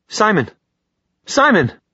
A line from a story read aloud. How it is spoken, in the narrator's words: Clary said sharply